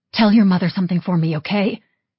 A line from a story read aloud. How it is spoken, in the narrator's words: Her voice began to tremble with emotion